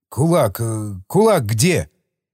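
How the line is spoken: Hoarse question. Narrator (Russian): Хриплым голосом хозяин спросил

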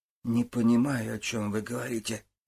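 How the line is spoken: Mumbled. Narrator (Russian): пробормотал

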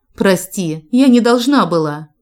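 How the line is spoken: Desperate exclamation. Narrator (Russian): в отчаянии воскликнула Мэдалин

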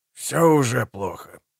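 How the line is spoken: Grumbling official. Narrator (Russian): проворчал Торсит Магнессон, начальник управления общественной безопасности

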